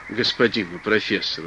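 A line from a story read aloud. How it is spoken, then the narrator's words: Plain. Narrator (Russian): сказал Консель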